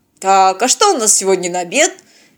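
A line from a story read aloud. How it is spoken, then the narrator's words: Exaggeratedly cheerful interruption. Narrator (Russian): Преувеличенно бодро перебил его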